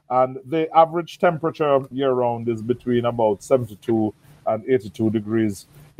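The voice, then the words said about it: Caribbean accent. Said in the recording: “By my accent, you can tell I'm from the Caribbean.”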